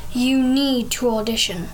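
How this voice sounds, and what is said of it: Deep British accent, Simon Cowell. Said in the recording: “He said to River in his deep British accent”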